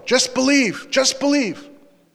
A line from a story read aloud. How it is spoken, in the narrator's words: they could actually hear him yelling